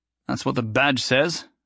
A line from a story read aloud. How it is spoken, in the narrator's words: Jason grumbled